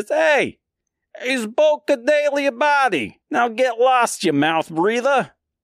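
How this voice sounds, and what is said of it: Put-on accent for character voice. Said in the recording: “I don't know why they all have that accent, but yeah, I'm going to stick with it.”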